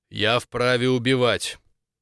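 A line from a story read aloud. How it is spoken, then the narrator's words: Cold. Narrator (Russian): Сказал холодно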